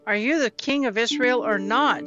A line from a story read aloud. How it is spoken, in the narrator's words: Jezebel asked